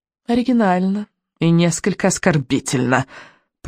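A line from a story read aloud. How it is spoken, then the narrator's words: Purring witch. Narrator (Russian): промурлыкала ведьма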